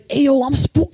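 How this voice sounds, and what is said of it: Put-on tough street gang accent. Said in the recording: “you should be able to do that accent ... how they sound so scary”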